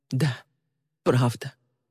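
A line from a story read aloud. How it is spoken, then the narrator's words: Choked, barely forced out. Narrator (Russian): К горлу Ли подступил ком, и она еле выдавила из себя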